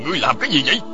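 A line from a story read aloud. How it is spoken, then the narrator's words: Angry shout. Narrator (Vietnamese): Bảo Thụ nổi giận, y quát lên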